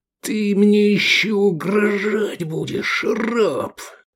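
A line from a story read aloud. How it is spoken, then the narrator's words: Hissing then barking. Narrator (Russian): прошипел Децим Юни и рявкнул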